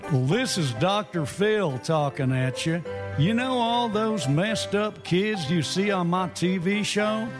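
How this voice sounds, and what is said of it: Dr. Phil impression. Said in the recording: “Celebrity voice impersonated.”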